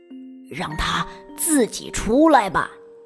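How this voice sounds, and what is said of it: Soft whispered line. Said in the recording (Chinese): “鳄鱼爸爸小声地说”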